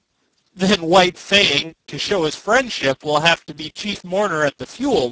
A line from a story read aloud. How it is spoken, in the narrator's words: laughed